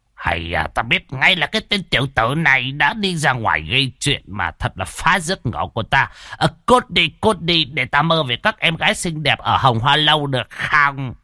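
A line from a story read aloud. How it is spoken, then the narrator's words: Grumbling mutter. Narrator (Vietnamese): một đạo trưởng vừa mới nằm xuống, đã lẩm bẩm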